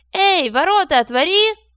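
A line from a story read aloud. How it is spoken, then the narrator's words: Shouted. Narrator (Russian): крикнул Родион Вальке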